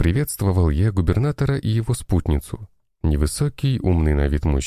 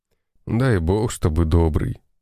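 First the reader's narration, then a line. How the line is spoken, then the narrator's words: Tired, smiling. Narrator (Russian): Устало улыбнулся тот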